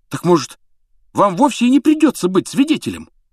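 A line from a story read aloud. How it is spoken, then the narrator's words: Fervent exclamation. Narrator (Russian): с жаром воскликнул Рон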